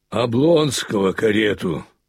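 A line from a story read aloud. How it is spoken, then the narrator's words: Angry bass shout, doorman. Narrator (Russian): сердитым басом прокричал швейцар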